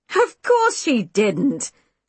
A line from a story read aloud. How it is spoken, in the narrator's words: Juno scoffed